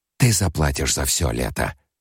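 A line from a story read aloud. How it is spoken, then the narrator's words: Whispered. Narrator (Russian): прошептала она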